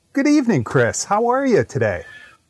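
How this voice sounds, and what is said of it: Posh upper-middle-class English accent. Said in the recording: “what a beautiful accent that was ... It made me think of upper middle class England.”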